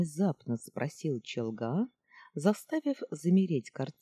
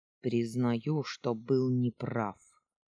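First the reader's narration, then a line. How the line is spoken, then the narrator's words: Grumbling. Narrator (Russian): пробурчал он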